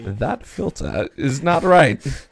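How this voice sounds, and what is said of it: Imitates Professor Oak's voice, poorly. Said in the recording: “terrible Professor Oak impression”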